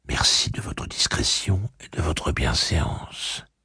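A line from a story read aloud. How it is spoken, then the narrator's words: Woman whispering. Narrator (French): chuchota-t-elle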